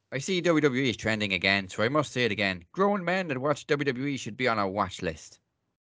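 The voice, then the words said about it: Put-on Irish accent. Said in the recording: “I'm actually going to do this one in an Irish accent.”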